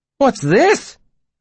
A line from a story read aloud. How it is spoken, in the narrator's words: he exclaimed